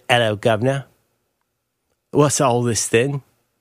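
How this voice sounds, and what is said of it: Weak put-on British accent. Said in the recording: “That's your best British accent? ... You've done much better than that.”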